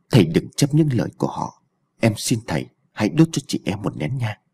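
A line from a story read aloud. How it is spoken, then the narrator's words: Soft-spoken. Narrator (Vietnamese): Thủy nói khẽ với An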